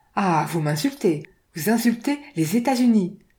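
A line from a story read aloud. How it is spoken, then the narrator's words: Bursting fury. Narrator (French): s'exclama Ned sous l'impulsion d'une fureur contenue jusqu'alors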